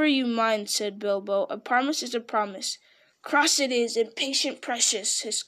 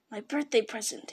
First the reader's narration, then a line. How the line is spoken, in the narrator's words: he whispered to himself